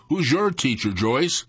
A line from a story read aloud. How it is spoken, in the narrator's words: Laughing sarcastically, I asked